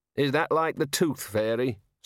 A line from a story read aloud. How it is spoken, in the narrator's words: said the Dean sarcastically